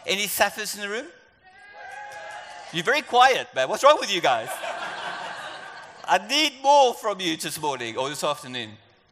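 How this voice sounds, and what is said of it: South African accent. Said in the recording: “adjust to my accent. You probably know I'm South African, or you can hear my accent is different”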